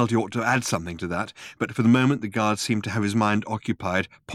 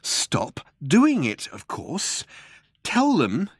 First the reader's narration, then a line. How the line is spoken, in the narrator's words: said Ford, brightly but slowly